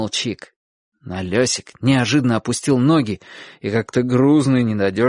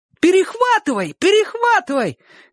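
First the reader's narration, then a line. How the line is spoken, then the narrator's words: Shouted in unison. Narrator (Russian): крикнули все в один голос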